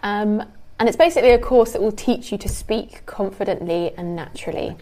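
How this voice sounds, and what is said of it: Modern RP British accent. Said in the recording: “I teach modern RP. That's the accent that I speak with.”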